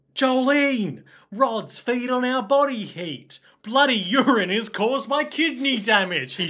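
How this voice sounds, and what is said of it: Exaggerated Australian accent. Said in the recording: “I was doing an exaggerated Australian accent”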